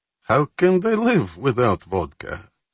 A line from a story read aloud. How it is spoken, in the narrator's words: Popov chuckled